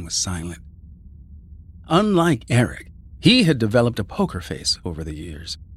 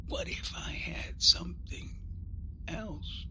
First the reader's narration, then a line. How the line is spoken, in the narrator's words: he whispered